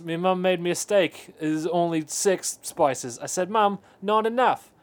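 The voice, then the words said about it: Poor put-on Australian accent. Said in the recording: “He was doing Australian fish. ... I can't do the accent. I apologize for what I just did. I'm going to apologize to the nations of England, Australia, New Zealand, and anyone else with an accent even vaguely similar to what I just did.”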